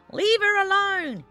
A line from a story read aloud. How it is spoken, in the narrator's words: he howled